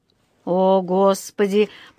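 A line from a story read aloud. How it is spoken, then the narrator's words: Groaning. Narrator (Russian): простонал мистер Браун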